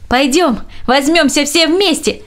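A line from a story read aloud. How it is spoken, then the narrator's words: Shouting. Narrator (Russian): прокричал он нескольким каменщикам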